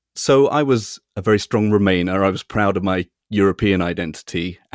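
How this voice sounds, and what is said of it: North London English accent. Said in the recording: “judging by your accent, it would have been pretty far for you to get here ... I'm in North London”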